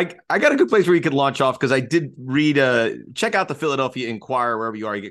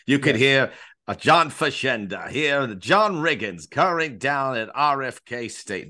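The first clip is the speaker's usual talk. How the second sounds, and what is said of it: Poor impression of John Facenda. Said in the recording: “That's terrible. I did not think I was going to do a Fashenda impression”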